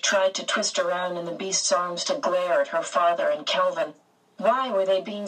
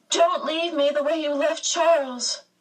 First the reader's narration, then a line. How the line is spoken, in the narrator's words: With this burst of terror, a spasm of pain racked her body and she gasped